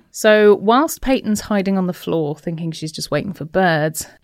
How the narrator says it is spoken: Anissa shouts

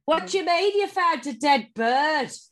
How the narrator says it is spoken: Lindsay shouted off

